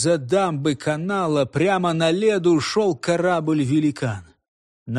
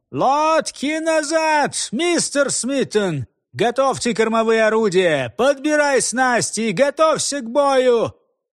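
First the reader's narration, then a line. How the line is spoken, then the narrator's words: Sudden thin high shout. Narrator (Russian): вдруг закричал своим тонким высоким голосом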